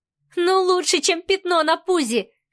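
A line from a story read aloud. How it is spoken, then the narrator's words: Loud laughter. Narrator (Russian): хохотала Марианна и даже не попыталась снизить громкость своего смеха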